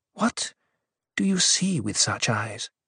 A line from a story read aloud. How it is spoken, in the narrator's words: she whispered